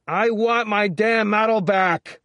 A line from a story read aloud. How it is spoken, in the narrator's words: Woody yelled from farther away in the apartment